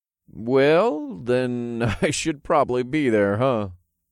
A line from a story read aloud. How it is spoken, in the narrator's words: I chuckled